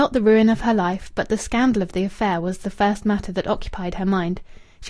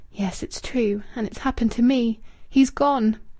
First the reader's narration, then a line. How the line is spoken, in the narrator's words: She whispered alone in the room